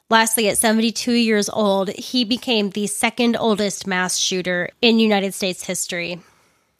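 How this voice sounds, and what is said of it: Hoarse, congested voice. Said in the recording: “losing my voice a little bit ... symptoms from my sinus infection ... my voice not sounding super awesome”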